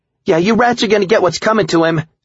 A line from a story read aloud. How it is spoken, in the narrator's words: Cindy shouted